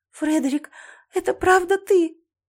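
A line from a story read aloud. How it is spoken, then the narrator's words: Sobbing. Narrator (Russian): Я всхлипнула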